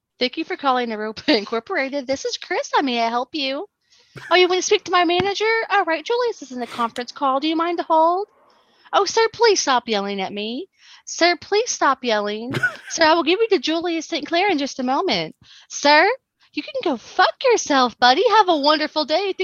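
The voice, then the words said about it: Fake cheerful customer service voice. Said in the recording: “That's my customer service voice. ... That's a good voice. ... But it's so fake.”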